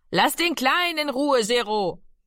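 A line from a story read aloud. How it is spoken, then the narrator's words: Mother calling out. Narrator (German): rief Mami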